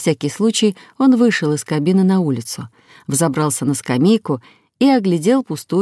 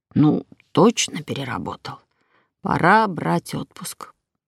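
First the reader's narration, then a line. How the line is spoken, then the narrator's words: Muttered under breath. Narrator (Russian): буркнул себе под нос водитель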